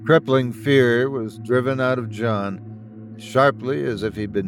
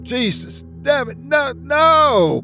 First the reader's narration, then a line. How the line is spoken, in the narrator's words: the voice of his son-in-law screaming in pain